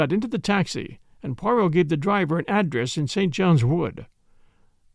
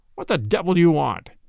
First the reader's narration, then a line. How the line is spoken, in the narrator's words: the man's voice demanded harshly